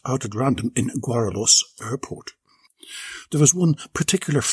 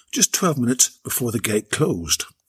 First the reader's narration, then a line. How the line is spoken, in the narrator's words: Gertrude moaned